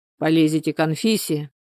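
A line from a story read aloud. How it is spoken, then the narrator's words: Menacing. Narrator (Russian): грозно проговорил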